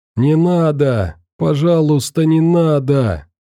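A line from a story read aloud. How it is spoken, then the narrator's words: Young girl screaming. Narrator (Russian): кричал очень молодой девичий голос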